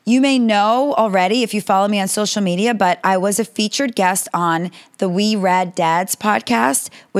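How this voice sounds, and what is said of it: Slightly raspy throat. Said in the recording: “my throat is a little bit raspy”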